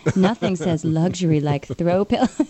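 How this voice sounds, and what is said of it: Put-on sexy voice. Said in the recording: “do you want me to use my sexy voice?”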